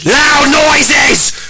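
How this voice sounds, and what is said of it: Yelling loudly. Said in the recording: “I don't know why you're yelling.”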